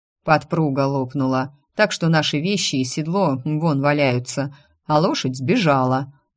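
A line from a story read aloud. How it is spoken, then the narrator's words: Gloomy explanation. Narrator (Russian): мрачно пояснил он мне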